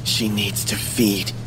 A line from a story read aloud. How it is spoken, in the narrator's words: whispered